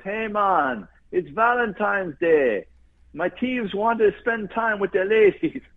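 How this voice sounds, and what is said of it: Poorly imitated Jamaican accent. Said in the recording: “the Jamaican goes ... I'm doing a terrible accent.”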